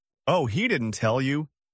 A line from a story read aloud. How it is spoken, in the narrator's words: the best man said, laughing nervously